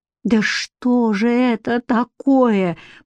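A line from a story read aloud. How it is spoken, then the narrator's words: Moaning. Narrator (Russian): простонала Катерина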